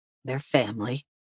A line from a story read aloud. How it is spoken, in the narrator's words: he whispered